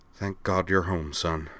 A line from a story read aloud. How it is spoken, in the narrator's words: Cyrano whispered